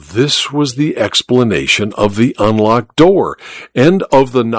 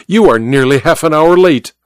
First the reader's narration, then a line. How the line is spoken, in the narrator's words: said curtly